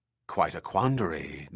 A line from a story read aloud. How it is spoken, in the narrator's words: Doria muttered with a bit of a sneer